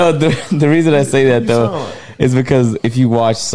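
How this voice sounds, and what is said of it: Usual voice. Nothing is said of it.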